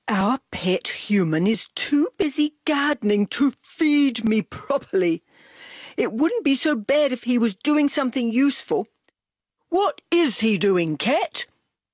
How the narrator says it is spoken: Dog moaned

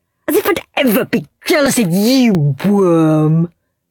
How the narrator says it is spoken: sneered Henry

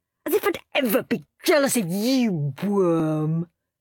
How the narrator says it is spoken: sneered Henry

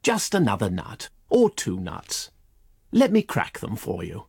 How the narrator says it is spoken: said the chipmunk

